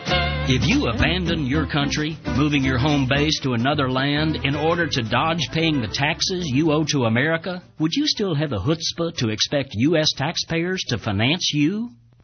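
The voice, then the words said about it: Rural American country accent. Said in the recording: “country bumpkin accent”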